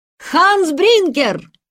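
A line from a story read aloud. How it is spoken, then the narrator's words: Shout. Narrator (Russian): Питер крикнул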